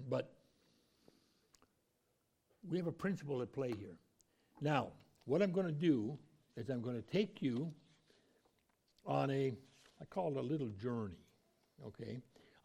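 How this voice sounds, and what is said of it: Raspy, hoarse voice. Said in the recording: “You'll hear my voice getting more raspy as I go.”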